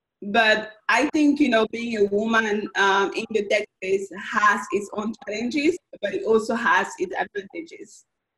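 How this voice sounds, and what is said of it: Strong accent. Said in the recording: “as soon as I open my mouth, I have a strong accent.”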